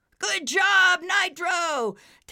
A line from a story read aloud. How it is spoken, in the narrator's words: Taz yelled